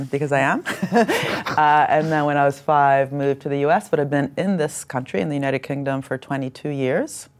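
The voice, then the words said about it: Italian accent. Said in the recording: “I sound Italian”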